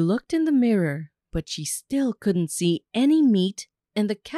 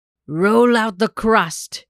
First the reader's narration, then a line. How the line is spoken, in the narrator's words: growled